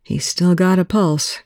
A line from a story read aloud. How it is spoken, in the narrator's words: Greer murmured